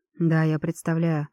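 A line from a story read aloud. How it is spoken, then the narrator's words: Grim chuckle. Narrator (Russian): мрачно усмехнулся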